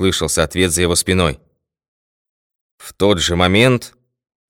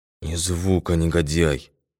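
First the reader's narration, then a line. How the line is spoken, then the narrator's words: Whisper. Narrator (Russian): шепнул он преступнику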